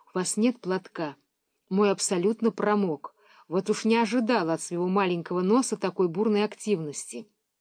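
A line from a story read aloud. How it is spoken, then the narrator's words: Whispered. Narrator (Russian): она шепнула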